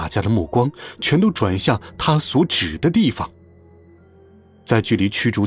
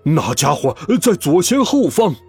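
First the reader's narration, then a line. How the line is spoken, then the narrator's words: Sudden loud shout. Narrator (Chinese): 突然，内德兰德又像昨天一样大声呼喊起来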